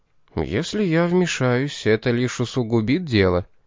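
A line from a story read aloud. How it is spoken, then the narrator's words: Soft. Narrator (Russian): мягко сказал Пит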